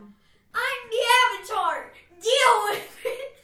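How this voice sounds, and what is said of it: Very loud shouting. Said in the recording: “you just blew everybody's ears out just then”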